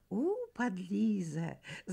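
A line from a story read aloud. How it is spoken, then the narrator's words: Girls laughing. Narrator (Russian): засмеялись девочки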